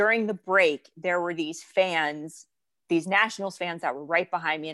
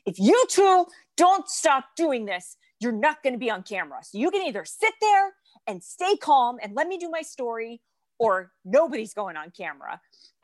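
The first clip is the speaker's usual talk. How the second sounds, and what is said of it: Stern scolding mom voice. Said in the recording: “put on my best mom voice”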